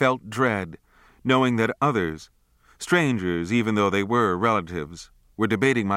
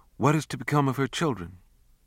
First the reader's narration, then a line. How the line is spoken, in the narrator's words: I caught whispered talk of